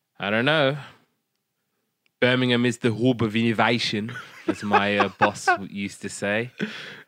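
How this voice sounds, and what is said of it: Put-on Brummy accent. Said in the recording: “I'm going to stop with the Brummy accent, otherwise I'm going to cringe in post.”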